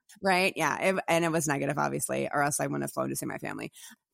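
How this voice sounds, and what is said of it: Raspy, slightly congested voice. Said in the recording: “just a little like sniffles ... I have a nice little sexy rasp”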